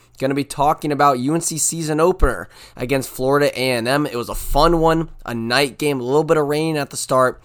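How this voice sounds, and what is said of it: Hoarse, strained voice. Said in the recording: “You might be able to tell my voice is a little shot. You know, we were cheering hard at the game.”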